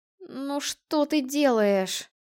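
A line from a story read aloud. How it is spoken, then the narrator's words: Groaning. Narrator (Russian): простонала Альда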